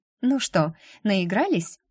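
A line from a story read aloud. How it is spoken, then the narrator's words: Exaggeratedly cheerful. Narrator (Russian): преувеличенно бодро спросила я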